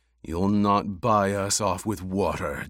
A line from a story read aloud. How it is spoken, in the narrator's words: Jameis growled